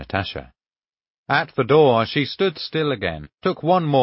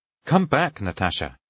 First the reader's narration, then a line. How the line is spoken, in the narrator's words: I cried in alarm